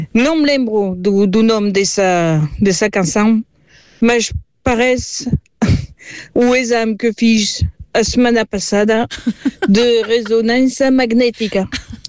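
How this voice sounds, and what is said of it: French accent speaking Portuguese. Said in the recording (Portuguese): “Eu sou ... sou francesa. ... desculpa o meu sotaque. ... E a minha maneira de falar.”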